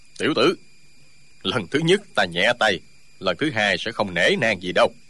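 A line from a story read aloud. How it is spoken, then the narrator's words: Sneering. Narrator (Vietnamese): Ân Giả Vương cười khẩy nói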